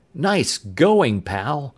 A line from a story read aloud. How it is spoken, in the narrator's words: Tom exclaimed